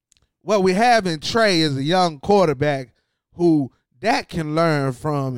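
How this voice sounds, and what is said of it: Imitates another person's voice. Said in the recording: “I think my Jerry Jones impression was all right.”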